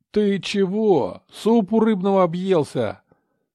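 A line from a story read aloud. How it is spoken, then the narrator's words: Startled yell. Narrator (Russian): Завопил Леха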